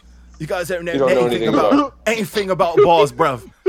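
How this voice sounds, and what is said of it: Put-on British accent. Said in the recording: “It's that flex video, but with a British accent.”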